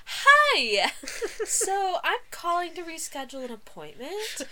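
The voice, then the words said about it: Bright customer-service phone voice. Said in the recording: “my customer service / talking on the phone voice ... Like, that's not how I talk.”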